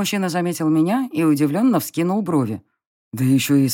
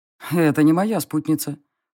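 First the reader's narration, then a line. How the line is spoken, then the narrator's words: Snorting. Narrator (Russian): хмыкнул фон Грейслинг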